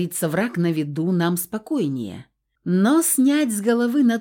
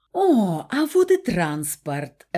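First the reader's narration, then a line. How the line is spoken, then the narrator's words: Joyful exclamation. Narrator (Russian): радостно изрекла Стаська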